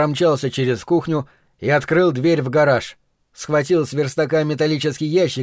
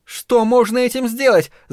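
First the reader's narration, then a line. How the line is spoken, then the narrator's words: Shouting. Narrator (Russian): закричала на меня Дженни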